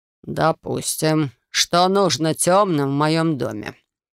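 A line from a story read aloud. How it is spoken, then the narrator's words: Menacing growl. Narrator (Russian): угрожающе прорычал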